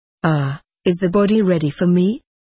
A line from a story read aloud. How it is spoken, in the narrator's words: he asked